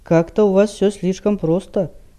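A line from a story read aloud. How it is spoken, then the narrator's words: Gloomy remark. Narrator (Russian): мрачно подметил Рид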